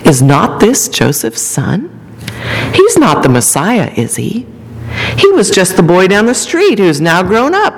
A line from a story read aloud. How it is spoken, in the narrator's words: the synagogue murmurs